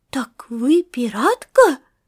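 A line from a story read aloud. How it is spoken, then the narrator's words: Excited exclamation. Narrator (Russian): воскликнул Артур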